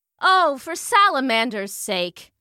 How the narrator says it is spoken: said Fabiana

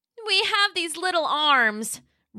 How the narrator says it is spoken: Roxy cried

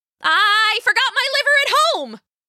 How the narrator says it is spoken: she yelled

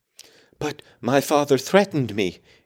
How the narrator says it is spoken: gasped the boy

